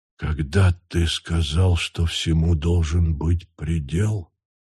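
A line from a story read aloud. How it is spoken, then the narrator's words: Whisper. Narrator (Russian): прошептал Тур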